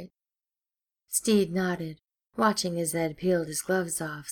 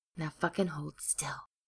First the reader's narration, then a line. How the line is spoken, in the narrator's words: he hissed